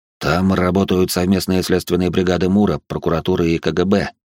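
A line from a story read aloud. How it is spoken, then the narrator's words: Plain. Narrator (Russian): сказал он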